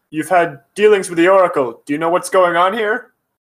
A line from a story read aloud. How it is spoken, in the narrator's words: I kind of shout back to Nehmet